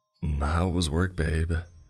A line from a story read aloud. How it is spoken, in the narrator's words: she asked in a joyful tone